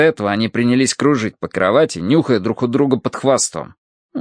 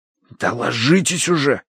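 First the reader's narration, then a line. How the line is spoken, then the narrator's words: Hiss. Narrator (Russian): прошипел я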